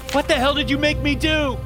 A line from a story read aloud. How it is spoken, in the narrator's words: screamed